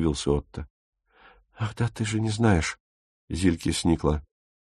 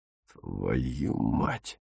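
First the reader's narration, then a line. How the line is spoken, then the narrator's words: Hiss. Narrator (Russian): прошипел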